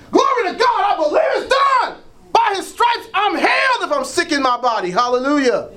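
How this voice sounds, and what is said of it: Shouting preacher. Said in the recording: “I'm shouting.”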